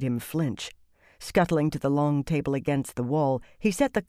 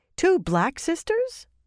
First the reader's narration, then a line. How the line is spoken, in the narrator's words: Saritha exclaimed